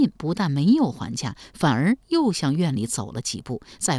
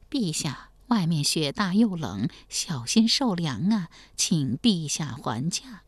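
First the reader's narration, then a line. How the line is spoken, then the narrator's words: Soft urging. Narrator (Chinese): 王继恩小声劝道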